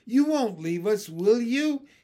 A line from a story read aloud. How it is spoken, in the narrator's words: he called anxiously